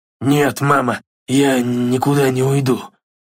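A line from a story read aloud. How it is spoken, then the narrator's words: Through gritted teeth. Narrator (Russian): процедил Бальдер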